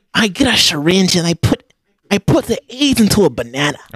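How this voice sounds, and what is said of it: Imitates another person's voice. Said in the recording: “Why does this hurt me to do his voice?”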